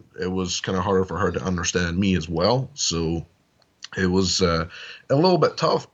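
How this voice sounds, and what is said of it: Foreign accent. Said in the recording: “because I'm from a different country, so I have an accent”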